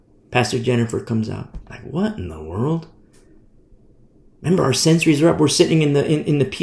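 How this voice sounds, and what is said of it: Usual voice. Nothing is said of it.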